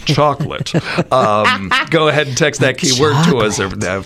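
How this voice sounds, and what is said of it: Exaggerated announcer radio voice. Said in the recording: “I want to use my radio voice for that. ... Now, that's the way to say it.”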